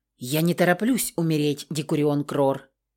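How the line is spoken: Quiet nervous reply. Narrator (Russian): Нервно сглотнув, тихо ответила я

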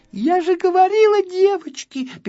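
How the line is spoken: Squeaky little girl. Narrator (Russian): пищала одна малышка

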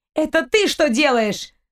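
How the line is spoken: Young woman crying out. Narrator (Russian): выкрикнула девушка

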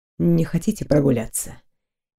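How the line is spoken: Quiet speech. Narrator (Russian): Тихо проговорил Дайрон

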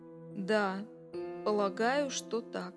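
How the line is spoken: Slow, reluctant, forced. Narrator (Russian): Медленно и неохотно он выдавил из себя

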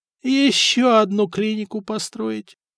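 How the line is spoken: Groaning. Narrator (Russian): простонал Леонтий

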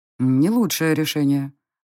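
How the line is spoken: Gloomy male remark. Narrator (Russian): мрачно заметил мужчина

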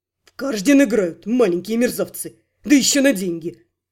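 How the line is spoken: Loud snort. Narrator (Russian): Громко фыркнул Хорхес, показывая, что ничто не укрылось от его внимания

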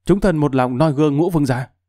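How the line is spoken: Fearful voices in unison. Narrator (Vietnamese): Quần thần sợ hãi đồng thanh tấu rằng

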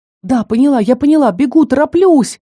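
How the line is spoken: Breathless shouting. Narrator (Russian): кричала, задыхаясь

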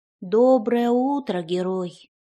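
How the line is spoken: Sighing little fairy. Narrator (Russian): вздохнула феечка

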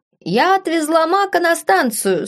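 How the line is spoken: Ringing voice. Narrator (Russian): сообщила она звонким голосом

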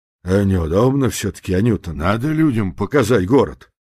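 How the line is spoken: Muttering. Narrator (Russian): бормоча жене

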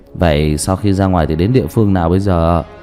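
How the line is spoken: Plain. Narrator (Vietnamese): Một người hỏi

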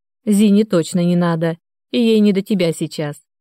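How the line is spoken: Laughing. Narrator (Russian): рассмеялся Андрей

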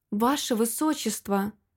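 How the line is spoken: Desperate whisper. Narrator (Russian): с отчаянием прошептала

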